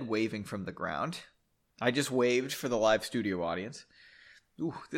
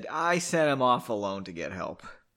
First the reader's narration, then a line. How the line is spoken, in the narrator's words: Margot sighed and said